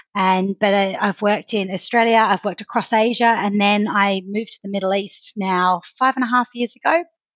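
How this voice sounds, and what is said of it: Australian accent. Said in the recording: “From the accent you've probably picked up, I'm Australian”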